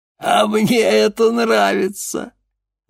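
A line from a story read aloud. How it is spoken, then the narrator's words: Sudden laughter. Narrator (Russian): вдруг рассмеялся мастер игрушек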